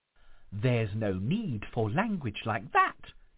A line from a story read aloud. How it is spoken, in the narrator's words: exclaimed the ghost